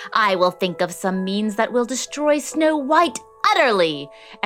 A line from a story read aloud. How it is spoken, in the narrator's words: she screeched